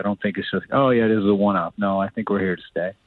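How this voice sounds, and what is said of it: St. John's Newfoundland accent. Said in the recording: “My mom's from St. John's, so I love the accent as well.”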